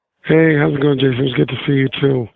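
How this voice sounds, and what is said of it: Slightly hoarse voice. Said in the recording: “I'm a little hoarse right now.”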